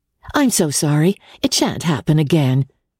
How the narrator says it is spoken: she answered, in the firm, bright tone she had learned from her mother

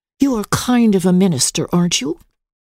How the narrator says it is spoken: asked timidly

